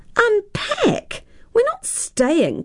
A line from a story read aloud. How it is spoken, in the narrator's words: cried Tara